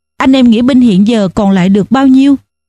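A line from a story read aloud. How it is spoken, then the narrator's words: Sighing question. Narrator (Vietnamese): Đại Hồng thở dài hỏi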